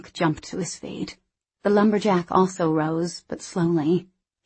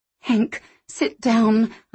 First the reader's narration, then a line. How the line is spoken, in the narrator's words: pleaded